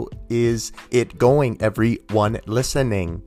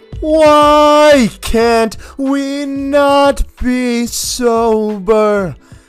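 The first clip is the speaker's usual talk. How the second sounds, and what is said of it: Awful impression of a singer. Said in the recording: “my awful Tool impression”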